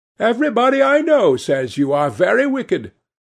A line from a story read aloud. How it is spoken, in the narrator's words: cried the old lady, shaking her head